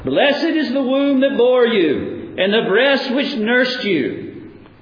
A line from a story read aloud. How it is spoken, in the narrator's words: a woman in the crowd who cried out